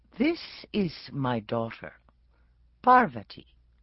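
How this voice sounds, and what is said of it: Posh Masterpiece Theater accent. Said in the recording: “reverting to the Masterpiece Theater accent”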